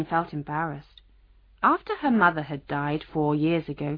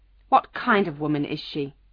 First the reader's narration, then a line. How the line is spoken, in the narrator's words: she asked angrily